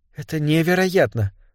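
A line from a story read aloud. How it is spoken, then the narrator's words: Whisper. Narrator (Russian): прошептала она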